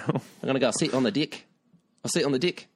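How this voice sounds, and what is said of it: Put-on New Zealand accent. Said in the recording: “I haven't given them a New Zealand accent, and here it is.”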